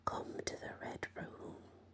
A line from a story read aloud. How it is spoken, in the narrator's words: a faint voice whispered in his ear saying